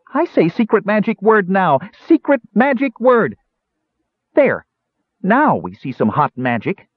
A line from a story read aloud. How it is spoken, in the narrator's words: yelled